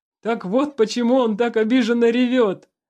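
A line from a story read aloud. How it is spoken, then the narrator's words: Laughing. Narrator (Russian): смеясь, сказал Алексей Александрович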